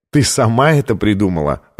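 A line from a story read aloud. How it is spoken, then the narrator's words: Laughing. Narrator (Russian): рассмеялся он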